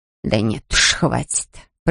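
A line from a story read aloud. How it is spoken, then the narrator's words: Grumbling. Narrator (Russian): проворчала Мэрит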